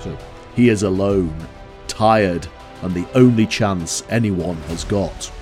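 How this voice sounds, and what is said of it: Deep movie-trailer announcer voice. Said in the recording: “that kind of vote of a man type style ... deep voice.”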